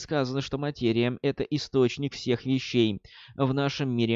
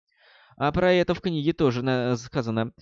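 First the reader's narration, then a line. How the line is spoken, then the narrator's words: Laughing. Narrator (Russian): рассмеялся Роланд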